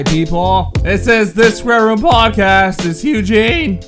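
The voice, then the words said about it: Loud yelling voice. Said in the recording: “Why are you yelling? ... you literally blew my ears out just now.”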